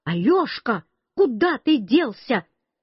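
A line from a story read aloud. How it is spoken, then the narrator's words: Grandmother shouting close behind. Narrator (Russian): Бабушка совсем сзади меня кричала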